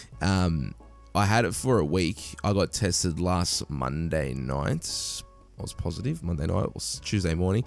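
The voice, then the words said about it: Slightly raspy, nasal voice. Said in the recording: “you can still hear it in my voice a little bit. I'm still a bit like raspy and like it's a little bit nasally.”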